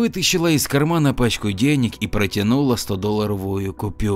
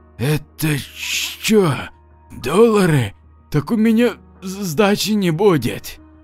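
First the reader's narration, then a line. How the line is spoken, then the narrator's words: Loud gulp, then whisper. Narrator (Russian): мужик громко сглотнул и прошептал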